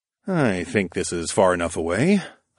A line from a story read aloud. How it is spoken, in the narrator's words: I muttered to myself